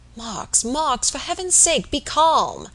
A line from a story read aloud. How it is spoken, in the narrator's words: said Robert, earnestly